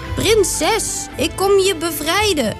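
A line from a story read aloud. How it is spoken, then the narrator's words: Calling out. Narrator (Dutch): riep Toren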